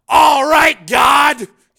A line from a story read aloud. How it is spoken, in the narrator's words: He yelled